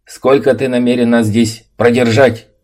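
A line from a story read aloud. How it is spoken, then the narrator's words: Screaming. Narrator (Russian): Завопил кто-то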